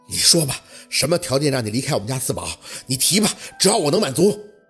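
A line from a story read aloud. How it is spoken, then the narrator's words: Breathless, through gritted teeth. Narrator (Chinese): 若文有些喘不上来气的 咬牙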